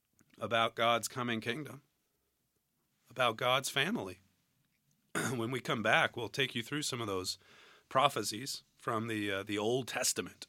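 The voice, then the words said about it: Hoarse, strained voice. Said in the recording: “I'm losing my voice right at the right time.”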